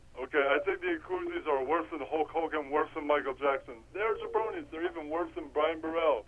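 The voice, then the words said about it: Impression of the Iron Sheik. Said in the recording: “Give your Iron Sheik impression.”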